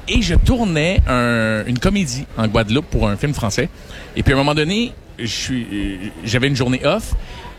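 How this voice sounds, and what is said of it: Québécois French accent. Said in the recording (French): “avec mon accent québécois”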